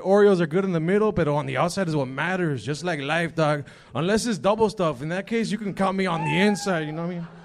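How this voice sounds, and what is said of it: Put-on Mexican accent. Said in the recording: “Your Mexican accent was so real”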